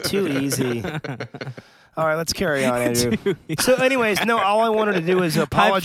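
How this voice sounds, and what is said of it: Tired-sounding voice. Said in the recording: “I'm going to sound like this the rest of the episode because my voice is kind of tired.”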